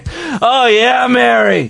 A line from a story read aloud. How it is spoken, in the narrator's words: he cried out